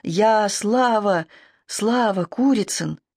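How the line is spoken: Declaring or plaintive calling. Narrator (Russian): о себе ли он в мире заявляет или кого-то жалобно зовет

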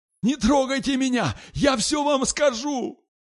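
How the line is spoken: Terrified shout. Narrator (Russian): Перепуганный насмерть Толкачев закричал

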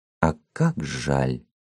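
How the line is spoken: Sincerely sorrowful tone. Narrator (Russian): прибавила невыразимым тоном искренней печали

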